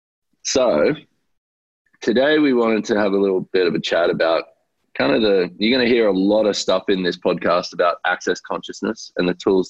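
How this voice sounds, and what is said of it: Husky, altered voice. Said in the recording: “I have my sexy voice on today ... what happened to my voice?”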